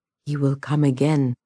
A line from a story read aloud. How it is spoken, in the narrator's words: the mare said